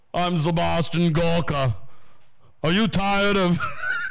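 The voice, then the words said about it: Sebastian Gorka impression. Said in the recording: “your Sebastian Gorka impression”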